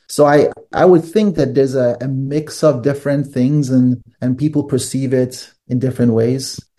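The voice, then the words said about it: English with slight European accent. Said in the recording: “do not speak English with an African accent at all. I can detect more your European roots in your accent, because was Hungarian your first language?”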